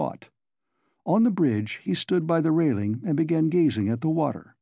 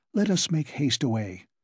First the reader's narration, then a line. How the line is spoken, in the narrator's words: Svidrigailov whispered to her